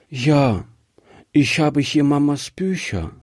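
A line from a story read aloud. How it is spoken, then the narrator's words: Sad little girl. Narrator (German): sagte die Kleine traurig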